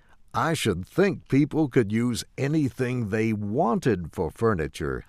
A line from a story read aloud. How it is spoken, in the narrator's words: I said, somewhat sharply